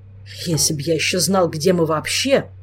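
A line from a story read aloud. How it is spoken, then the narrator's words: Grumbled. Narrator (Russian): проворчал Кангрем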